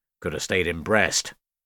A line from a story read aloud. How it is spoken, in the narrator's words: Jake grumbled